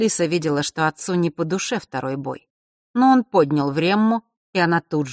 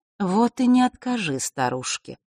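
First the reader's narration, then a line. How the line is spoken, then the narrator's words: Soft, gentle. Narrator (Russian): мягко произнесла черная королева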